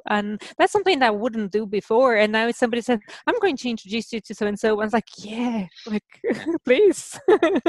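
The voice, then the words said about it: Brazilian Portuguese accent, German-Irish tinge. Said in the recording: “I'm still trying to figure out your accent ... it's Portuguese ... Portuguese from Brazil ... people say I have a bit of a German accent with Irish now”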